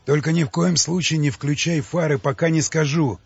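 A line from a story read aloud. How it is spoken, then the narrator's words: Loud whisper, ogre. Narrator (Russian): громко шепнул людоед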